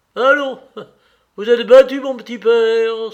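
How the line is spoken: Cheerful exclamation. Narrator (French): s'écria gaiement Katavassov

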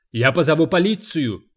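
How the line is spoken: Yelling. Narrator (Russian): завопил Оффекта

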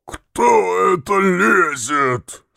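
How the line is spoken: Hoarse heavy bass question. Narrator (Russian): спросил охрипший тяжелый бас

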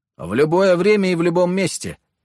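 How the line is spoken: Shouting after someone. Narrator (Russian): крикнул я вслед удаляющемуся персу

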